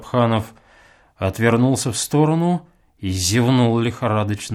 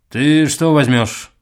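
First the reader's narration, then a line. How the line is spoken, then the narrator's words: Through gritted teeth. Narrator (Russian): промолвил он, наконец, сквозь зубы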